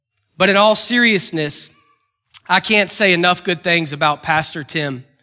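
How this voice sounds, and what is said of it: Kentucky accent. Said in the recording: “making fun of my accent ... from the great state of Kentucky ... if you need an interpreter”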